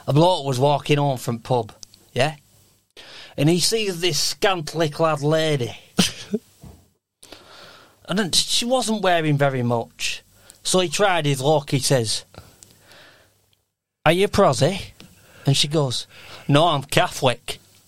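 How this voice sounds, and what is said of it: Put-on northern English accent. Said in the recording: “the northern accent does help. But you always do northern.”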